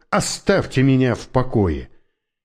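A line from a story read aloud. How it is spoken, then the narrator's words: Barked. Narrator (Russian): Он рявкнул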